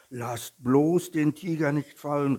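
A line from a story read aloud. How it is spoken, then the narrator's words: Small bear calling. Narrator (German): rief der kleine Bär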